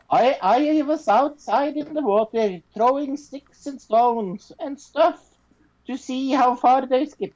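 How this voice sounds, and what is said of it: Put-on Swedish accent. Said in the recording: “I will do this in a Swedish accent ... Norwegian and Swedish accent”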